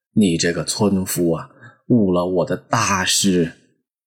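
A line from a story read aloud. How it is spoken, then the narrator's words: Long sigh. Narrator (Chinese): 道士 长叹一声说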